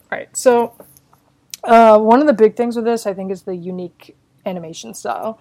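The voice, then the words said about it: Hoarse, failing voice. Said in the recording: “I'm losing my voice. ... while I'm dying.”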